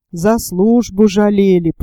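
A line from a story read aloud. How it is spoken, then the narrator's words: Spoken aloud with sigh. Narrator (Russian): проговорил вслух и почему-то вздохнул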